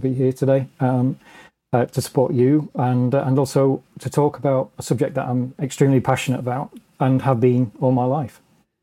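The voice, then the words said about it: British accent. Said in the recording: “you have a, a very nice accent. ... you're from the UK”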